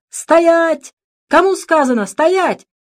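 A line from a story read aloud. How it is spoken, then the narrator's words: Old peasant yelling. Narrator (Russian): старый крестьянин заорал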